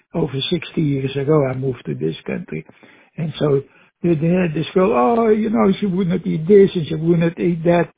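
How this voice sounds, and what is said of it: Slight foreign accent. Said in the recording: “as you can hear, I speak with a slight accent, so to speak. So I come from another country originally.”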